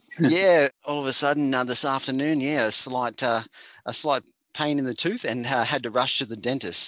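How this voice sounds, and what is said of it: Australian accent. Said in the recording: “my accent ... my Aussie slang or my Aussie language may not be on point today”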